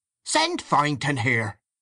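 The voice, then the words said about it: Furious, piercing Northern Irish accent. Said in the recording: “a furious voice called out in a piercing North of Ireland accent”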